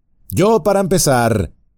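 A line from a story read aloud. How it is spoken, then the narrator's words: Shouting. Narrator (Spanish): gritó Legolas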